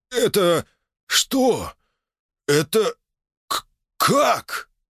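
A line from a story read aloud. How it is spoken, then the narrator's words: Strained astonished words. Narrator (Russian): выдавил из себя гридень, изумленно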